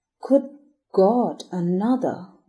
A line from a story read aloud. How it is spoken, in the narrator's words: groaned Brayton